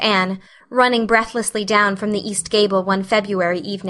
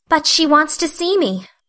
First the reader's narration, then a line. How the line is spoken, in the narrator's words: pleaded Anne